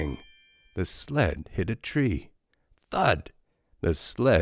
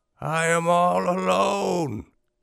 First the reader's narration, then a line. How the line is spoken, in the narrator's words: screamed Toad